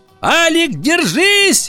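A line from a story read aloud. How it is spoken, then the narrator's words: Shout. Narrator (Russian): закричала она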